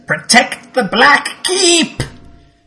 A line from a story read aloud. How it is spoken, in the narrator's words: He cackles somewhat and says